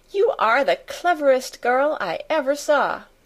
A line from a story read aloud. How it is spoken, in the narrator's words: she cried out